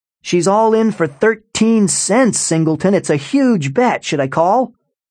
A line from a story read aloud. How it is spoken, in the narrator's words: Hassan shouted